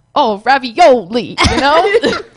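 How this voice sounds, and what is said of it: Put-on Brooklyn Italian accent. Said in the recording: “New York, Brooklyn, Italians ... That was very Italian ... I can't really do the accent”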